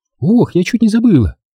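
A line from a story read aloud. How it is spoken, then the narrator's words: Exclaiming. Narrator (Russian): воскликнула Лайза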